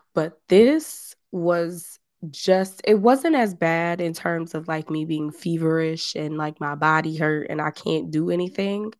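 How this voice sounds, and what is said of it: Weak, strained voice, can't project. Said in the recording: “my voice is leaving me ... this is the best I've sounded in since probably Tuesday of last week ... I can't project that well”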